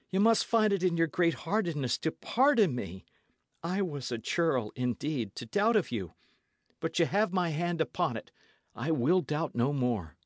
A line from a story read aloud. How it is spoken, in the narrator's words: cried Dick